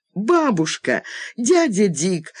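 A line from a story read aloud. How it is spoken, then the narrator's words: Jubilant exclamation. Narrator (Russian): ликующе воскликнула Дженнифер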